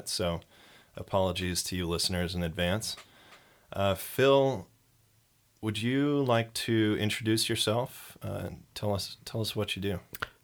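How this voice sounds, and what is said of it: Congested voice from a cold. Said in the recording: “I've got a little bit of a cold this episode recording, so I am going to be struggling a little bit.”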